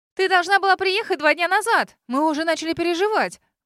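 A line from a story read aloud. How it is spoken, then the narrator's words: Exclamation. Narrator (Russian): воскликнула Кейт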